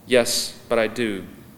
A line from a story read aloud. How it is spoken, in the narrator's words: the voice said